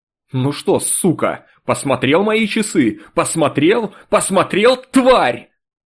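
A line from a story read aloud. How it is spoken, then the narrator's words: Hysterical shout, then laughter. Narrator (Russian): выкрикнул в каком-то истерическом запале и вдруг захохотал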